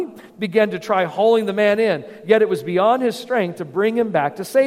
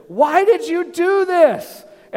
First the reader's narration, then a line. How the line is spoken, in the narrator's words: Again, he yelled over the edge